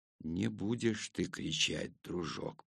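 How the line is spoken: Whisper. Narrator (Russian): прошептал я

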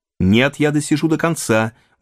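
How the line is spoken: Sharp, bitter retort. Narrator (Russian): возразил Дориан резко и с горечью

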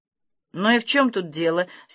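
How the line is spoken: Angry mutter. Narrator (Russian): сердито пробормотал Ангала

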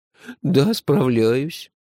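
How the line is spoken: Sad agreement. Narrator (Russian): печально согласилась Базилио

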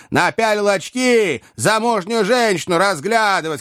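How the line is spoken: Shouting. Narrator (Russian): кричал третий

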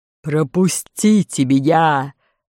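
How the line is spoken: Roaring lion. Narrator (Russian): рявкнул лев

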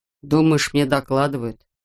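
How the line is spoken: Grumbled. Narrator (Russian): проворчал штурман

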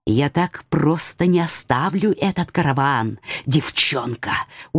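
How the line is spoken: Distant whisper. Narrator (Russian): отдаленный шепот

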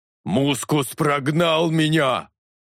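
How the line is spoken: Roaring. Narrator (Russian): Взревел Талос

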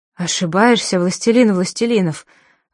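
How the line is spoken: Breathless, being dragged. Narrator (Russian): выдохнул Абдулла, когда солдаты с лязгом тащили его по плиткам

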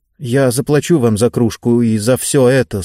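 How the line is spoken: Embarrassed mumble. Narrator (Russian): смущенно пробормотал он

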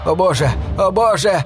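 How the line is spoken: Shouting. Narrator (Russian): кричал один из аборигенов

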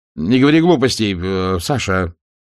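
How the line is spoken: Irritated father. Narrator (Russian): раздраженно заметил отец

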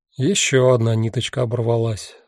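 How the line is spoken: Sighing. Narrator (Russian): вздохнул Гюйс

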